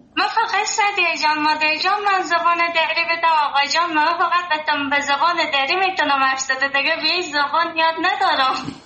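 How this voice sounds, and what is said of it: Sweet Herati accent. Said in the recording (Persian): “لهجه هراتی شیرین ... لهجه هراتی”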